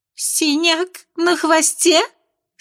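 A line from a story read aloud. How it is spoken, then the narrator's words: Squeaked in horror. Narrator (Russian): С ужасом пискнула озерная красавица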